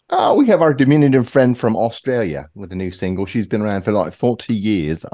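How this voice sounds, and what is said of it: Put-on British accent. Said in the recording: “I'm, doing a British accent”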